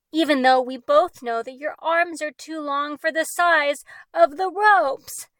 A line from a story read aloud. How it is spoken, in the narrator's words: Mora shouted